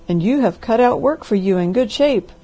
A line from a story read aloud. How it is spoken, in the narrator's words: cried the doctor